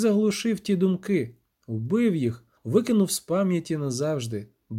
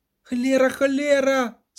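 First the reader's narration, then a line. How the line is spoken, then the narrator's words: Cried out. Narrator (Ukrainian): скрикнув Любисток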